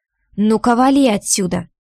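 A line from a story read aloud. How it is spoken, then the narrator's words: Rough command. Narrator (Russian): грубо велела я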